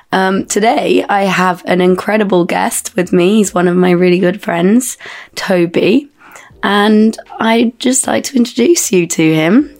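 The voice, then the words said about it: Croaky voice. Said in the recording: “I've got a bit of a croaky, sexy voice, just a bit unwell”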